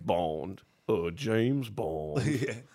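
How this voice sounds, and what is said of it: Daniel Craig James Bond impression. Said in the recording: “Let's do his voice again.”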